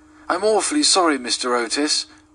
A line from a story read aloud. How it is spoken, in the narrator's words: gasped out the boy